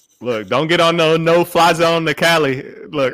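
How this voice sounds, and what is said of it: Imitates a rapper's voice. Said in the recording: “I only brought up E40 just so I can hear your E40 impersonation.”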